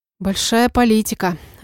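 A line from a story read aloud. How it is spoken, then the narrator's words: Breathless alarmed exhale. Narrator (Russian): выдохнула я, понимая, в какую опасную переделку нечаянно попала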